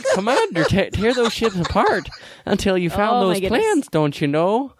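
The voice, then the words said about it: Fargo-style Minnesota accent. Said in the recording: “That almost went into Fargo ... Accent.”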